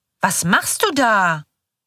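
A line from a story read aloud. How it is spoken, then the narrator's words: Loud angry voice. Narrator (German): sagt mit lauter ärgerlicher Stimme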